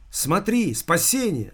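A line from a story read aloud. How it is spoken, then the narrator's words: Shouting. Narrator (Russian): закричала Алиса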